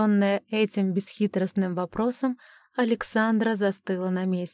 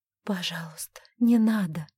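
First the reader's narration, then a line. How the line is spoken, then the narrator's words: Pleading whisper. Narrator (Russian): взмолилась она, потом зашептала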